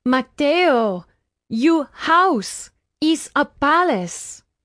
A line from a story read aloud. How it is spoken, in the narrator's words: Nayeli cried